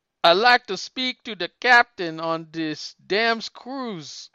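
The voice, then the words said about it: Put-on Jamaican accent. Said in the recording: “Now do it with the Jamaican accent. ... Pretty good.”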